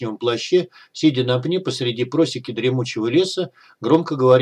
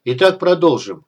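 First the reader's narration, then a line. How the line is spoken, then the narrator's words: Said dryly. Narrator (Russian): сухо сказал командир черных карателей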